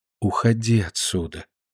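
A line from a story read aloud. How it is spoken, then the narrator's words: Gentle, affectionate. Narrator (Russian): ласково сказала ему Полина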